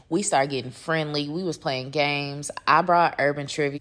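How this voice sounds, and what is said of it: Tipsy, slightly drunk-sounding voice. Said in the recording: “I'm sure you can already hear it in my voice that I was already getting lit”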